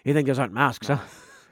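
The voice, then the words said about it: Put-on character accent. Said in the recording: “Oh, I lost my accent. Hang on.”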